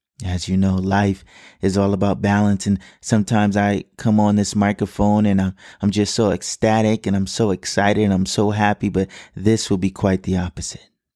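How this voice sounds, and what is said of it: Somber, subdued voice. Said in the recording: “as you can probably already hear in my voice, this episode will be a somber one.”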